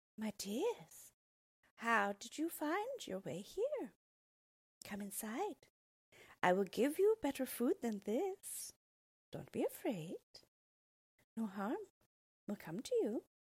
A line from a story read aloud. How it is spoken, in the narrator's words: she smiled at them and said sweetly